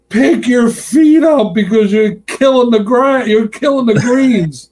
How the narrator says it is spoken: the guy yells out to me

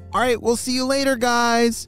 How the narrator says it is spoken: shouted Momo

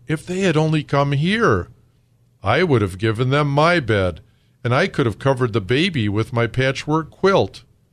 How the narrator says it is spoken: exclaimed Papa Panov

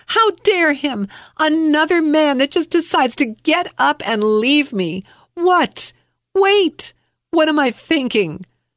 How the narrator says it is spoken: In my head, I screamed

